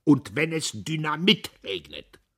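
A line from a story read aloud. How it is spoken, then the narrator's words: Loud in empty alley. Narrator (German): sagte Diederich laut in der leeren Gasse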